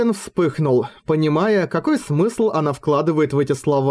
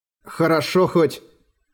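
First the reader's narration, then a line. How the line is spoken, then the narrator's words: Embarrassed muttering. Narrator (Russian): смущенно пробормотал Эреган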